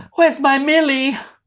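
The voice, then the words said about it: Impression of Emma Stone. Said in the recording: “That's my impression of Emma Stone.”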